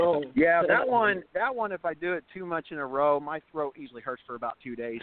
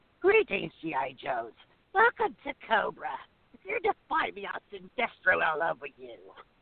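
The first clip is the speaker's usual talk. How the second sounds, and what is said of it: Cartoon villain character voice. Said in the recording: “I can do Cobra Commander”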